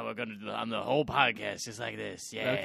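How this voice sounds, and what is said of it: Weird mild Wario-like cartoon voice. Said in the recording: “still doing weird voices ... I thought he was going for Wario, and then it just kind of went into... ... It didn't quite go that far ... Wario's like mild-mannered younger brother”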